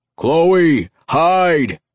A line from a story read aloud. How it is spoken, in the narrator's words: his voice boomed